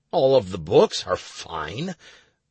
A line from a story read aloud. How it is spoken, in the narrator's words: I grumbled